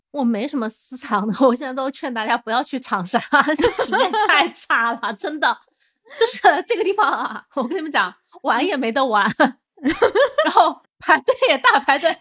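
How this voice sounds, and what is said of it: Regional accent showing through. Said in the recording (Chinese): “口音都出来了。”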